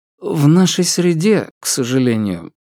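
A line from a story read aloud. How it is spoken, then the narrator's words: Mock sigh. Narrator (Russian): притворно вздохнул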